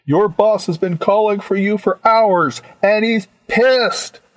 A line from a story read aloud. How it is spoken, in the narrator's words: I yelled at the open channel